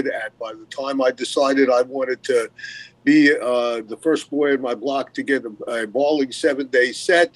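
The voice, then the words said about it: Brooklyn accent. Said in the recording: “accent, he's a good old Southern boy from the southern part of Brooklyn”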